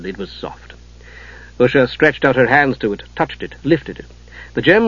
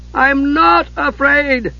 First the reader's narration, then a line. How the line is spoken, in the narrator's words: Tass cried out